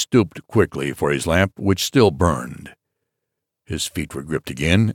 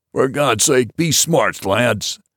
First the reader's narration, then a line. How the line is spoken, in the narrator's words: roared the captain